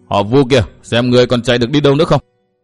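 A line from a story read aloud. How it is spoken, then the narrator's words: Overjoyed loud shout. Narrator (Vietnamese): Thiên tử cả mừng, liền quát lớn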